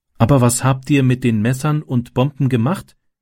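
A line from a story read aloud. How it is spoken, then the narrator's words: Plain question. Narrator (German): fragte Martin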